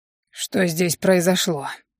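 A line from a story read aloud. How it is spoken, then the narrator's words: Asked hoarsely. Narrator (Russian): Хрипло поинтересовался маг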